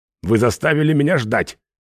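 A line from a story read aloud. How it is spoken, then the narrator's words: Angry. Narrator (Russian): зло сказал он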